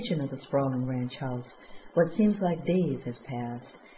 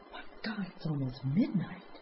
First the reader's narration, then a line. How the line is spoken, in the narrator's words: Danny glances at his watch and gasps